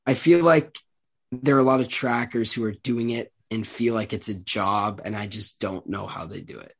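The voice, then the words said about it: Slightly nasal, congested voice. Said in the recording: “I feel like I sound a little nasally here. I'm just getting over a cold”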